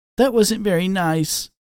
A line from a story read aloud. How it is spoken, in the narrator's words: he whimpered